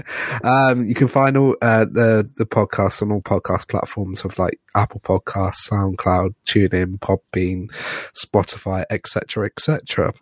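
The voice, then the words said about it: Hoarse, failing voice. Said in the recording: “my voice is pretty much going”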